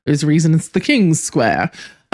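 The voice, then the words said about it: Brief odd put-on accent. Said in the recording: “Don't know why that accent came out. ... Wasn't even like a British accent.”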